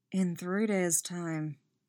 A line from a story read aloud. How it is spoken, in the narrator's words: Geralt mutters